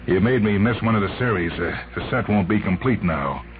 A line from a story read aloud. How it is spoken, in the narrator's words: He said bitterly